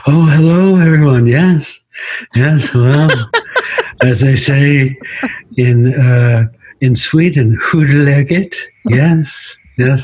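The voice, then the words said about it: Jeff Goldblum impression. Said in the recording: “The impersonation's ... Jeff Goldblum”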